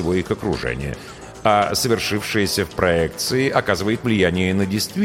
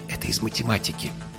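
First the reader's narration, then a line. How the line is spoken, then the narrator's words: Whispering. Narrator (Russian): шепнул жених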